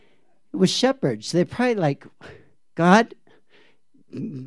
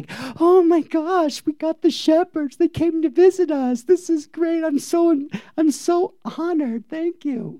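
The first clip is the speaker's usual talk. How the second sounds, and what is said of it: Imitation of Joseph. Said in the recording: “my imitation of Joseph”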